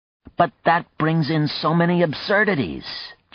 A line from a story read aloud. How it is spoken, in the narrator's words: John exclaimed